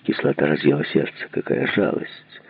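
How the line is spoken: Hoarse, Russian-accented English. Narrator (Russian): Хриплый голос говорил по-английски, но с явно русским акцентом

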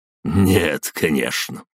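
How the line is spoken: Snort. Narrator (Russian): жрец фыркнул

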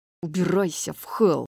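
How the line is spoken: Growling. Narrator (Russian): прорычал Рун

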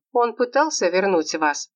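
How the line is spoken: Plain. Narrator (Russian): спросила она

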